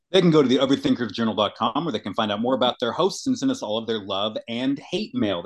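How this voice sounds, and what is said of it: Radio announcer voice. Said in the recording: “We are really both doing radio voice today ... I'm trying to change it up with my inflection”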